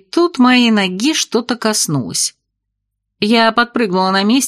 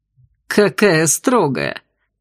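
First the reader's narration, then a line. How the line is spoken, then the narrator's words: Laughing, unafraid, unashamed. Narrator (Russian): Расхохотался пилот, ничуть не испугавшись, но и не устыдившись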